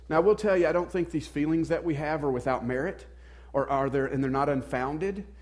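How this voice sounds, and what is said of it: American Southern accent. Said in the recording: “you guys know just from the accent, I grew up in the South”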